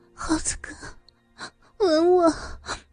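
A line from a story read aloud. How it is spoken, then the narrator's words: Aroused, panting. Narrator (Chinese): 他的情欲被撩拨起来， 喘息着说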